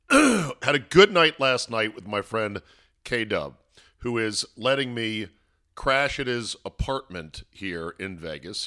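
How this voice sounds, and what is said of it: Voice sounds worn, not great. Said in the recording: “sorry about my voice. My voice is not great.”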